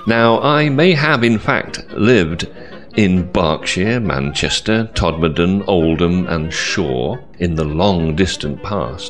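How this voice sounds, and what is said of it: Neutral Southeast English accent. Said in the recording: “I come from Southeast England... my accent. Some people find my accent difficult to understand, perhaps those brought up on American or Australian English, while others find it easy and neutral... a broadcaster's voice”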